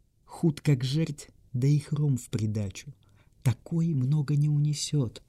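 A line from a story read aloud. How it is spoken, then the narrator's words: Whispering. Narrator (Russian): шепнул бургомистр судье Каспару Геллеру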